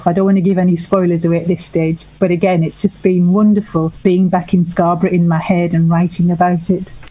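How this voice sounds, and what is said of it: Northeast English accent. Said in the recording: “I can hear a northeast twang in your accent there ... I live up in Sunderland”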